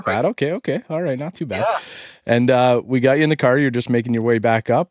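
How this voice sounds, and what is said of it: Canadian accent. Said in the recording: “I have a very Canadian accent”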